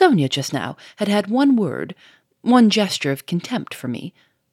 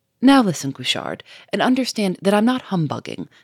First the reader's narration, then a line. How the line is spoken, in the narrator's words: said Lupin quickly, in clear, compelling tones